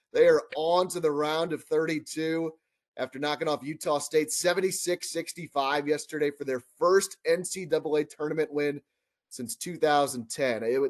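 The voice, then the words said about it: Sore, slightly hoarse voice with cold. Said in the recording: “I got a little bit of cold now, too, and my voice is a little bit sore after screaming”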